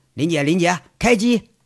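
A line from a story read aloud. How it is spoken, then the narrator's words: Cheerful call. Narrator (Chinese): 杨伟笑着…喊了一声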